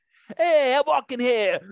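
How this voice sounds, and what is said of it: Thick New York accent. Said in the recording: “the Joe Pesci accent, like that thick New York, you know. ... That accent.”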